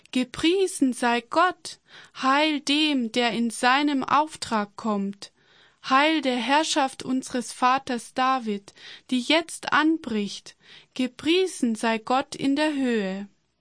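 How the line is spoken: Crowd shouting loudly. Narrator (German): Die Menschen, die Jesus vorausliefen und die ihm folgten, begannen laut zu rufen

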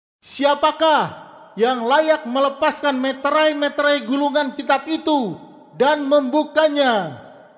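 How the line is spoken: Loud mighty voice asking. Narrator (Indonesian): seorang malaikat yang sangat kuat bertanya dengan suara keras

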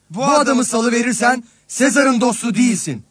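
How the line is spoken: Crowd shouting together. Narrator (Turkish): diye bağırıştılar

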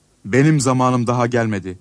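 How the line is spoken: Plain. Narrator (Turkish): dedi

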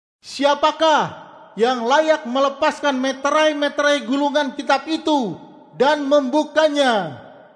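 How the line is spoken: Mighty angel's loud question. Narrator (Indonesian): seorang malaikat yang sangat kuat bertanya dengan suara keras

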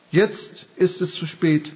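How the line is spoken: Plain. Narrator (German): sagte Jesus

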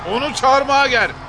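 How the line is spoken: Shouted. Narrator (Turkish): diye bağırdı

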